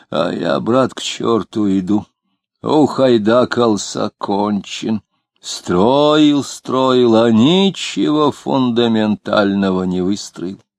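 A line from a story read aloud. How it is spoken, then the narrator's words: Wheezing hiss. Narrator (Russian): он засипел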